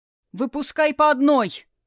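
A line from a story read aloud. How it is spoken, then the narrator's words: Shout. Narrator (Russian): крикнул огненный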